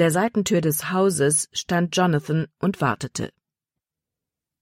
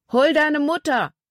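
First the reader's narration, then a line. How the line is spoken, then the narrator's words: Called out. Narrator (German): Paul rief ihr zu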